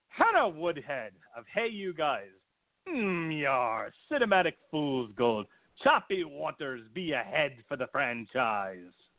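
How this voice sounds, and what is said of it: Bad put-on pirate voice. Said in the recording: “in a pirate voice and not a good one. I don't do this voice well. This is not a voice I'm proud of ... I'm going to do a stupid pirate voice”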